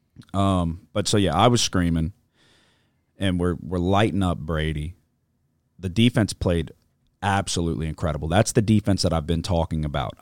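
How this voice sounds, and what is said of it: Strained, hoarse voice. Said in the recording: “I was screaming. My voice is struggling a little bit.”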